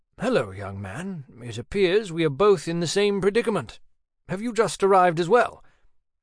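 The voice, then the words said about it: British-accented older man voice. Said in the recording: “His accent was British.”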